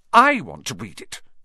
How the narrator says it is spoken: said Harry furiously

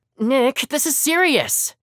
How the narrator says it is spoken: whining

